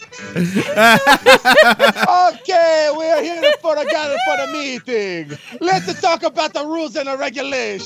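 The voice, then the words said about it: Put-on foreign accent. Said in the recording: “keep your accents coming”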